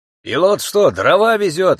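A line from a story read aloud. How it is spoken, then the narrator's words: Indignant shout. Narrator (Russian): возмущенно крикнул кто-то из соседей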